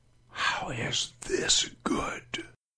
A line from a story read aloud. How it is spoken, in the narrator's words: The whisper passed through Abraham's mind